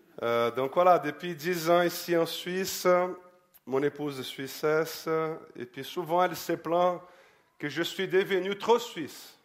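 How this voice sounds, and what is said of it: Brazilian accent in French. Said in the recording (French): “Des Brésiliens parmi nous? ... Mon accent, ça cache pas que...”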